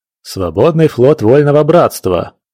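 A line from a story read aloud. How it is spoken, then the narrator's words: Menacing pirate snarl. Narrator (Russian): грозно оскалил зубы пират Андрюха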